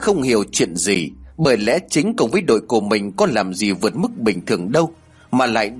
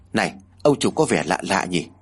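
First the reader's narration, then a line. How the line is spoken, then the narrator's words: Soft question. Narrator (Vietnamese): Chính mới khẽ hỏi anh ta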